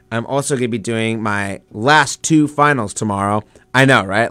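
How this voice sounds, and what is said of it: Hoarse, tired, fading voice. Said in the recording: “I am losing my voice, and I am also tired”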